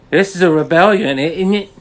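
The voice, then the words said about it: Poor attempt at a character's accent. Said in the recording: “That's not her accent. What was that? ... Isn't that how she talks? ... I'm not really good at accents.”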